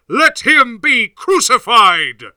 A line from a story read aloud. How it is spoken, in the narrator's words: they cried vehemently, saying